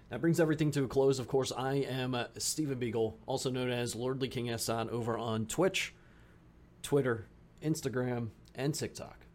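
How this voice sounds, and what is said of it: Tired, raspy voice. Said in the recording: “My voice is tired. ... listen to my raspy voice. I'm suffering.”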